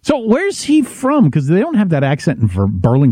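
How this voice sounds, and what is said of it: Usual voice. Nothing is said of it.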